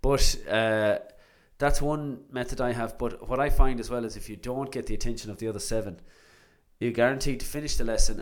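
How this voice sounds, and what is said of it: Sore, strained voice. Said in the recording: “my voice is sore today, because I had drums last night”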